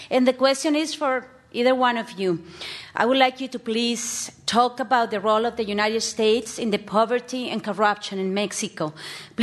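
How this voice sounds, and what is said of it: Speaks with a foreign accent. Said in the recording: “I am a Californian despite my accent”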